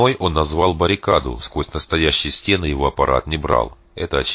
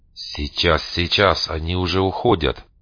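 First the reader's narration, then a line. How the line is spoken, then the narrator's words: Thoughtful whisper. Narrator (Russian): задумчиво прошептал Дитрих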